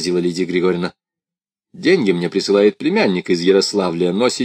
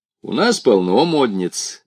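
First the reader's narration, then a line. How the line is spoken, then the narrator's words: Cheerful. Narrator (Russian): весело сказал Саша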